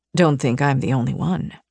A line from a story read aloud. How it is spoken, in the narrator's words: he murmured